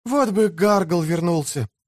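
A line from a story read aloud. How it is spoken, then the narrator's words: Boy's sigh. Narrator (Russian): вздохнул один мальчик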